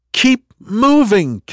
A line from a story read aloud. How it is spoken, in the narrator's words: Kendra shouted to the small crowd above her